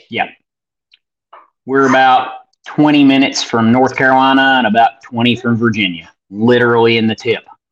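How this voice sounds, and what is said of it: Appalachian Tennessee hick accent. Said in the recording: “my Hick accent that I can never shake”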